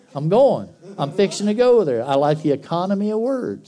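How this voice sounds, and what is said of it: Southern American drawl. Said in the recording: “Not everybody in my family speaks with a southern drawl. I do.”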